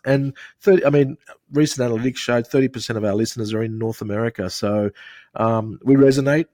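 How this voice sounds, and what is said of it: Australian accent. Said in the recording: “I don't know if it translates with our accent in the States ... you can sort of hear from our accent. It's quite easy to follow.”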